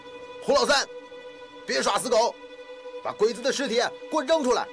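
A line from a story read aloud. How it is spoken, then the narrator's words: Commander's loud shout. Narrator (Chinese): 一个指挥员 大声地喊着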